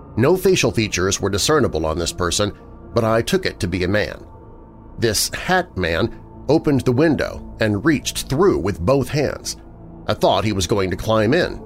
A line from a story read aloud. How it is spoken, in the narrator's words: Charles said